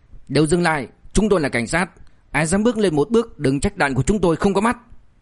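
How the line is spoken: Angry barked command. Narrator (Vietnamese): một sĩ quan cảnh sát đi đầu tức giận quát

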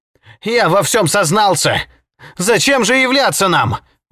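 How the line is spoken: Exclaiming. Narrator (Russian): воскликнул поэт

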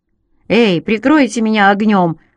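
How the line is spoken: Shouted. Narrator (Russian): крикнул я Маку и Джо

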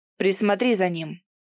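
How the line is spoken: Curt, clipped. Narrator (Russian): Бросает отрывисто

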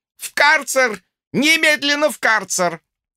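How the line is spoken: Shrill shriek. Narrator (Russian): взвизгнул Михин

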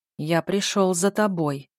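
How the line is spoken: Ominous booming bass. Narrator (Russian): прогудел зловещим басом фантом

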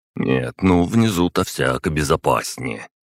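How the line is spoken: Snorting. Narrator (Russian): хмыкнул голос

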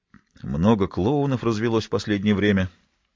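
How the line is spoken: Sullen mutter. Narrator (Russian): насупившись, пробормотал Райм

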